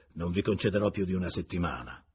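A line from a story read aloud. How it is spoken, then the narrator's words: Very harsh tone. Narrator (Italian): aggiunse Renal in un tono molto aspro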